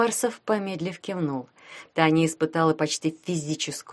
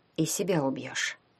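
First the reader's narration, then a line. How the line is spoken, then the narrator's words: Quiet question. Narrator (Russian): тихо спросила Таня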